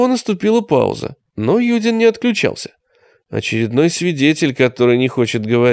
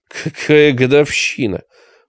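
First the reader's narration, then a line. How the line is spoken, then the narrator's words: Snort over intercom. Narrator (Russian): фыркнул Юдин в домофон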